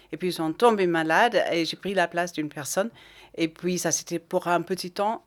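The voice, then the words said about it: Scottish accent speaking French. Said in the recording (French): “vous êtes écossaise ... On entend votre très joli accent”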